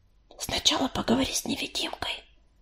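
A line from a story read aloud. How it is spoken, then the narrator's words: Whisper in the ear. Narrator (Russian): зашептала ему на ухо Белочка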